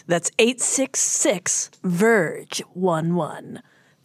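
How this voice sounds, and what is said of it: Morning radio announcer voice. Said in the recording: “That's one of my voices. ... morning radio announcer voice ... you don't call a radio show and do radio voice”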